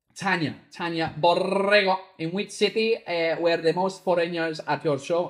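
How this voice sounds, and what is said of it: Put-on Spanish accent. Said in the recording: “I don't know why I'm putting on a Spanish accent”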